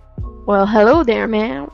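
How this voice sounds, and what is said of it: Put-on Southern cowboy accent. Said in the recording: “with that cowboy accent... It's a southern accent. It's not a cowboy accent.”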